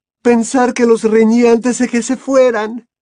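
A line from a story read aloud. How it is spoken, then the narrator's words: Sobbing woman's voice. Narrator (Spanish): dijo la señora Weasley, comenzando a sollozar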